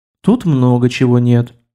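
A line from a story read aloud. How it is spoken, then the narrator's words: Sighing. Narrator (Russian): снова вздохнула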